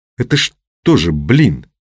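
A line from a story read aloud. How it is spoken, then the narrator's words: Seething, through gritted teeth. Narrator (Russian): вскипая, процедил Мухин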